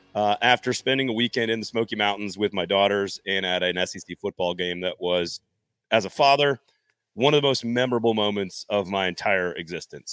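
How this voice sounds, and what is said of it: Hoarse, strained voice. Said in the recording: “my voice is a little shot today”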